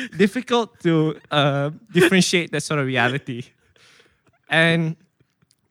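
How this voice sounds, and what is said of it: Usual voice. Nothing is said of it.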